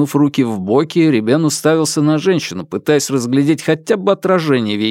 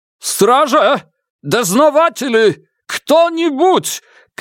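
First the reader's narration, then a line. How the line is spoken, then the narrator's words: Shouted. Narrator (Russian): крикнул Ребен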